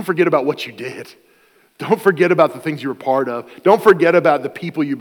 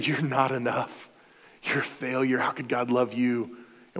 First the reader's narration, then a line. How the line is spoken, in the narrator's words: our enemy whispers in our ear